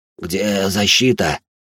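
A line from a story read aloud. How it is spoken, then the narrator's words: Fearful hoarse rasp. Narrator (Russian): прохрипел ближайший к нам, опасаясь выходить из-под защиты арки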